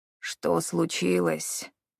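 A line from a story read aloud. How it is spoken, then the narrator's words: Labored breathless. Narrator (Russian): с трудом выдохнул он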